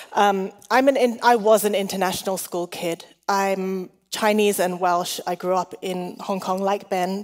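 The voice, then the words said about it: Mixed, hard-to-place international accent. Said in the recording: “my confusing accent ... The accent changes according to who I'm speaking to.”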